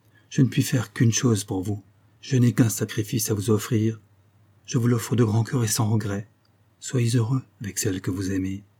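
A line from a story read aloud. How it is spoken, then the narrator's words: Softly. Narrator (French): dit-elle tout bas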